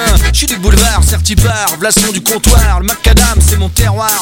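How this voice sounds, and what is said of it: Parisian French accent. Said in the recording (French): “L'accent, mien, c'est parisien.”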